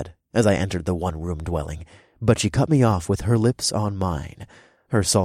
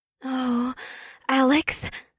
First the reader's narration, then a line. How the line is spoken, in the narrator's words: Una sighed